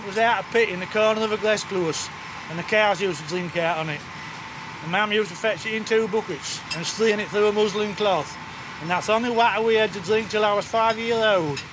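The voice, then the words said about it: Very strong regional accent. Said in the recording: “the novelty really is his accent, which is very, very strong”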